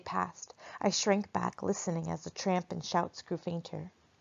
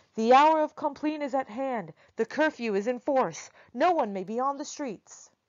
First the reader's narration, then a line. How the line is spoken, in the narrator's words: one of the soldiers shouted out